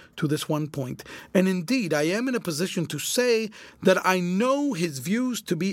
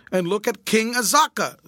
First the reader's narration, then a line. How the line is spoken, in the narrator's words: shouted triumphantly